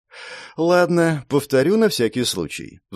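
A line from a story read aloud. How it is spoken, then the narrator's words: Sighing. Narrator (Russian): вздохнула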